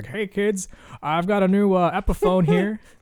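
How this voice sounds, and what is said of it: Imitates another person's voice, talk-singing. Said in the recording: “Is that imitation? ... Is that dead on or is it not at all? ... It sounds like you're trying to talk like ... trying to talk sing Scott Stapp”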